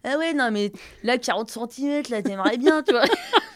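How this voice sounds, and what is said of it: Crude boorish 'beauf' accent. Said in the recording (French): “Il parle comme ça, comme un petit accent beauf, là.”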